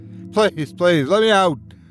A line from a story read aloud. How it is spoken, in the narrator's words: Charlie yelled at the top of his lungs